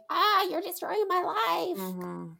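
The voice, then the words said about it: Imitates a complaining teenager. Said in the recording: “That is my imitation of teenagers.”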